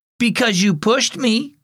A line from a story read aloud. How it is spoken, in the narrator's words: cried her little sister